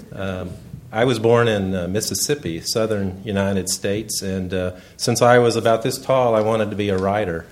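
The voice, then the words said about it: Southern US accent. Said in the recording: “You probably can tell from my accent I'm not from around here.”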